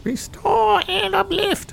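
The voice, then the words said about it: Imitates a character's voice. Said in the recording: “That's my Kairos impression. ... That is a actual great Kairos.”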